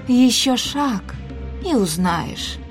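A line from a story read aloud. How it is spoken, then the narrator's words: Gentle, affectionate reply. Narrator (Russian): ласково ответила Исадора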